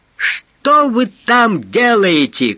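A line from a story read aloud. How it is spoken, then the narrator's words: Shout. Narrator (Russian): крикнул Суга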